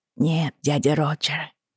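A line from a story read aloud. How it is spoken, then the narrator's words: Barely audible. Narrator (Russian): ответил он едва слышно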